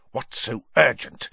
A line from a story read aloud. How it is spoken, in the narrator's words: Snape hiss